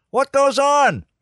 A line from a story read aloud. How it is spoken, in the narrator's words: Art yelled